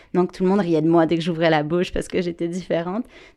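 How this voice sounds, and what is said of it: French accent from France. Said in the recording (French): “j'avais un accent que j'ai encore d'ailleurs, vu que je suis d'origine française”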